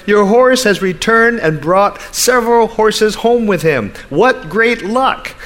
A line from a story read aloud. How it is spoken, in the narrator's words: The neighbors shouted